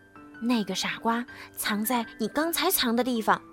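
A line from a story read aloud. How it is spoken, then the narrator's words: Whispering. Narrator (Chinese): 绿鹦鹉小声告诉他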